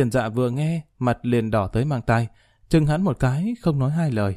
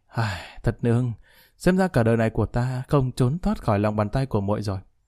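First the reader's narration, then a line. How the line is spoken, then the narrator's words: Stunned sigh. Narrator (Vietnamese): Lý Kỳ sững sờ thở dài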